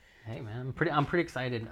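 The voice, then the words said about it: Nervous-sounding voice. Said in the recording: “You sound a little nervous”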